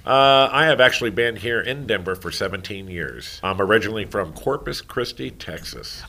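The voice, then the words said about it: Deep Texas accent. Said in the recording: “I can kind of tell with the accent. It's very deep.”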